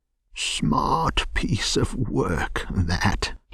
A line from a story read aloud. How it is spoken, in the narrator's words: he remarked to himself, chuckling